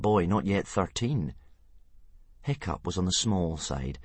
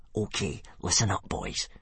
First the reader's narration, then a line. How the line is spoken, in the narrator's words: he whispered in a menacing fashion